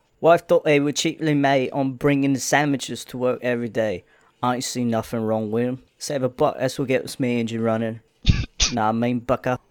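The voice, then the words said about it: Put-on Cockney accent. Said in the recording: “can you read this in a Cockney accent?”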